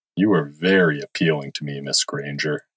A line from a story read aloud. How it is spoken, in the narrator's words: said in a low voice